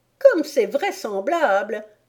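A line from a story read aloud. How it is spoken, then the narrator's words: Pigeon sneering. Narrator (French): ricana le pigeon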